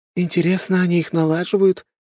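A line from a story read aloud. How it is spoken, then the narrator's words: Giggle. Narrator (Russian): хихикнула лиса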